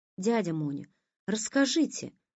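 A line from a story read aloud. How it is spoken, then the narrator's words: Request. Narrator (Russian): попросила Оля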